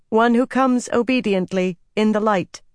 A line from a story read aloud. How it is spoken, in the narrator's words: she pronounced in a firm voice